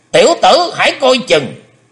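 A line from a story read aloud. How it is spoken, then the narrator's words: Sudden loud shout. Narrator (Vietnamese): Thình lình Hải Âu quái khách quát lớn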